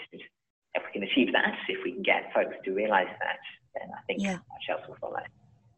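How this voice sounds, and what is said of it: English accent from Leicestershire. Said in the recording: “you have that lovely accent. So you're originally from Leicestershire in the UK”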